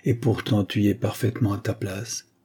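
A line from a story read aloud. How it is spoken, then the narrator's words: Murmured. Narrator (French): murmura-t-elle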